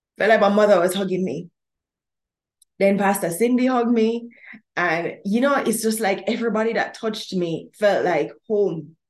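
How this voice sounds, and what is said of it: Emotional, choked-up voice. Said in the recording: “I'm getting a little emotional.”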